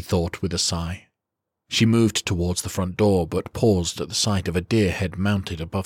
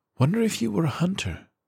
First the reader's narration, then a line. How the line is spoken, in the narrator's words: she murmured